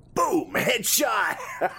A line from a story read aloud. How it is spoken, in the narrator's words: Ken yelled out in excitement